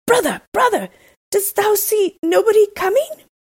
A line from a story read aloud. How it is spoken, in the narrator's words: said his husband, and then he cried out